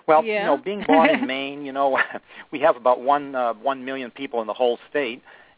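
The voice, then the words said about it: Maine New England accent, dropped R's. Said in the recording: “you'll pick up my accent, you know, park the car. We drop our R's on the end of the words and stick them somewhere in between... I haven't lost my accent at all”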